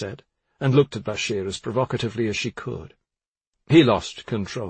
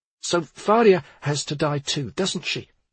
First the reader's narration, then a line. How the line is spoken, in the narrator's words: she stammered